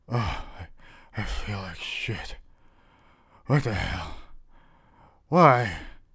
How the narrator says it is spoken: muttering to myself

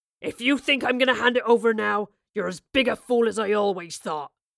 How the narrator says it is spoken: he growled

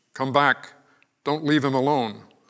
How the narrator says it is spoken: called out

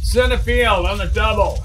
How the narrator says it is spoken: shouted Mac, using his getting attention voice

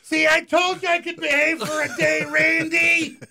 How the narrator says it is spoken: my mom yelled

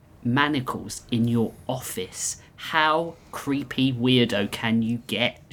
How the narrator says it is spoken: she sneered

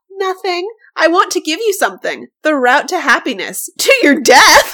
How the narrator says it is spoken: Han exclaimed

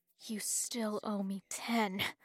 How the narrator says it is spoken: he said through gritted teeth

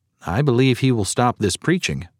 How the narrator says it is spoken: said another

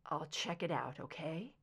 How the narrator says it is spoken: She sighed

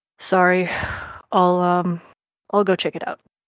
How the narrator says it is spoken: Kirsch just sighs and says

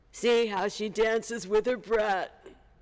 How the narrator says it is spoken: All the robbers laughed and shouted

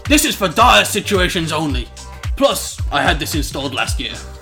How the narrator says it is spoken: angrily said over the computer screen

